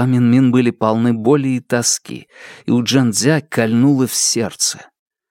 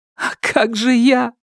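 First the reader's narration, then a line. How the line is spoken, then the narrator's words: Sobbing. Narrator (Russian): всхлипнула Джин-Дзя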